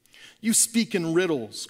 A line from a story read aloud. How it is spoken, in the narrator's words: cried Balthazar